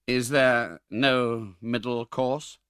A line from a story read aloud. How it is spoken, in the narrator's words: demanded Monks with a faltering tongue